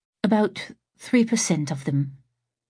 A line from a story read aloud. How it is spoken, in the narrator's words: Moira cleared her throat and said in a faint voice